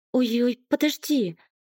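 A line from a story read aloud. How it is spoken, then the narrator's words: Exclaimed. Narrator (Russian): воскликнула Лена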